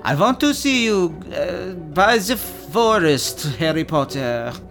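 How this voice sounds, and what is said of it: Weak foreign accent, sounds French. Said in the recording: “I can't really do the Crumb accent ... That was French.”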